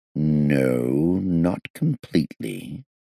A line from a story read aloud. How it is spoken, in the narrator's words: I said slowly